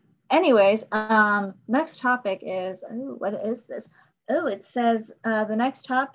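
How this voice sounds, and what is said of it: Usual voice. Nothing is said of it.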